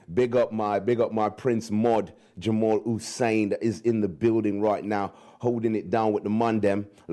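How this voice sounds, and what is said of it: Put-on London street British accent. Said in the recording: “when I do the British accent, right, we have to drop the T's and the H, and we have to fling out certain things ... We have to do the ghetto Brit”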